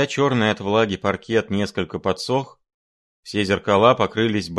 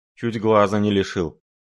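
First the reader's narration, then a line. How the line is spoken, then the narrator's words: Gloomy. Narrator (Russian): мрачно отозвался Шариков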